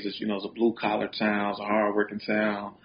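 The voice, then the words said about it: Chicago accent. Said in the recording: “Chicago was everything. You know, it's definitely who I am. You know, the way I talk, walk. You know, my accent”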